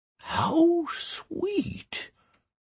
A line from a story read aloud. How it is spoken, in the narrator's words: Almas whispered in amazement